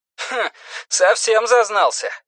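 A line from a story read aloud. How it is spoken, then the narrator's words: Scoffing over the phone. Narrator (Russian): хмыкнули в трубке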